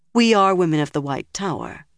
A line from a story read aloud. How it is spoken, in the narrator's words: Nynaeve said calmly